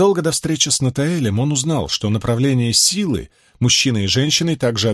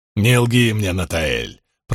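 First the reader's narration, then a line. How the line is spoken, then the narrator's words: Growled. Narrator (Russian): прорычал Ранд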